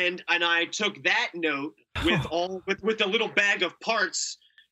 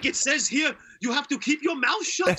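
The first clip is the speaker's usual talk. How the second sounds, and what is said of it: Good German accent. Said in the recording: “That's a good German accent too.”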